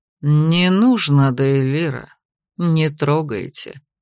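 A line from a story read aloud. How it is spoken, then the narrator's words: Calm addition. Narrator (Russian): спокойно добавил Беловолосый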